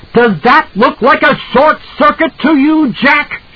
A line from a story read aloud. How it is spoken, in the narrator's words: She screamed at him